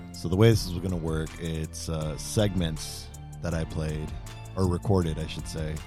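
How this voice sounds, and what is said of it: Hoarse, worn-out voice. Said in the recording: “my voice is kind of gone from yelling and being very excited today”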